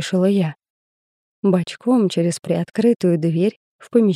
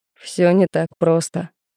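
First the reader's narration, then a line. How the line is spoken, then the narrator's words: Scoffing snort. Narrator (Russian): хмыкнул Кирсанов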